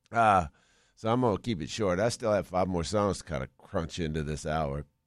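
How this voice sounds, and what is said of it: Rough, unwell-sounding voice. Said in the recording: “this damn ragweed ... It is killing us ... I sound terrible”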